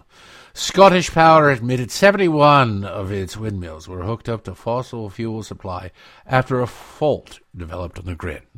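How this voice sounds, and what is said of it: Poorly done put-on Scottish accent. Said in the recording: “I'm butchering my Scottish accent. I can do a better Scottish accent, but not today.”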